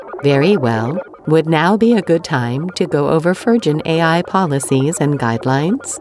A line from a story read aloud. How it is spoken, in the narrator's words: Virgin asked